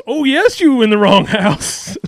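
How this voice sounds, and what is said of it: Exaggerated put-on character voice. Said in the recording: “doing that voice ... why didn't you make your voice that way?”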